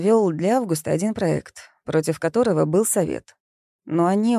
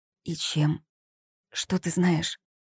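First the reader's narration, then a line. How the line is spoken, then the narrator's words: Fearful whispered question. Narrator (Russian): шепотом, боясь, что их услышат, спросила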